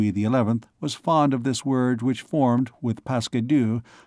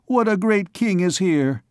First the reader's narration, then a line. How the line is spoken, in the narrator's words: cried Gringoire